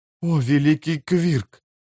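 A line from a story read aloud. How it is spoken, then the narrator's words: Whisper. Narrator (Russian): прошептал Том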